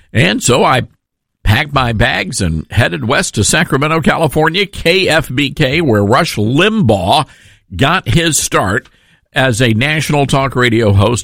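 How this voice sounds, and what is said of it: Southern American accent. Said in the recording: “I'm not getting rid of my accent. And I didn't think it was that pronounced anyway ... Are you okay with my Southern accent? ... I love that accent ... Nobody on our radio station has an accent like that”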